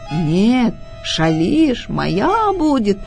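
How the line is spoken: Wolf growling. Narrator (Russian): Зарычал волк

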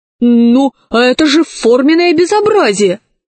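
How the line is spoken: Exclamation. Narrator (Russian): воскликнул настоящий директор

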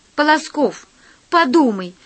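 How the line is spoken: Pleading. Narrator (Russian): взмолилась Алиса

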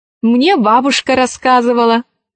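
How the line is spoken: Plain. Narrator (Russian): ответила Алиса

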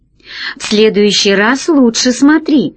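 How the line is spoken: Laughing. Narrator (Russian): рассмеялся Пашка

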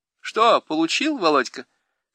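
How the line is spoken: Short laugh, young woman. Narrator (Russian): хохотнула одна из девушек

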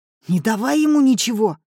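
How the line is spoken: Barked. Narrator (Russian): рявкнул Семён

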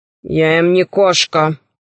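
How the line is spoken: Gloomy. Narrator (Russian): сказал мрачно Тигр

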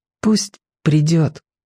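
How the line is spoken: Quiet. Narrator (Russian): тихо сказал Владик

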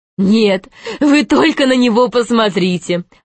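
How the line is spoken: Laughing. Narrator (Russian): засмеялась Изабелла

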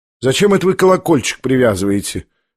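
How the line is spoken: Cheerful speech. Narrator (Russian): весело проговорила она

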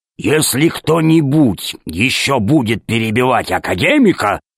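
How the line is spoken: Growling. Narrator (Russian): зарычал Громозека

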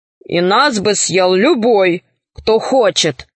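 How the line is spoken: Tiger grumbling. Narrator (Russian): проворчал тигр

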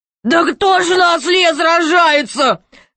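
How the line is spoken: King laughing loudly. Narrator (Russian): захохотал король

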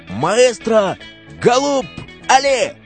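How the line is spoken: Shouting. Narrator (Russian): Он закричал

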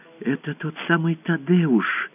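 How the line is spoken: Whispered. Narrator (Russian): прошептала она

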